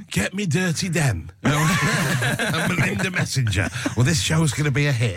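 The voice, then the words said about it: Inaccurate impression with Yorkshire accent. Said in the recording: “is that your Napoleon impression? ... It's not very accurate, is it? ... Why is he from Yorkshire?”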